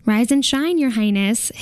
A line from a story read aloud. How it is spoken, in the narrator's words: says brightly